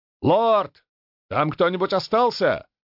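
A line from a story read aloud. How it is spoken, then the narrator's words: Shouted question. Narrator (Russian): крикнул возглавлявший отряд маг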